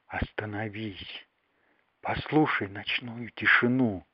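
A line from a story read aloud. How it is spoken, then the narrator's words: Whispered. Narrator (Russian): Звезды шептали ему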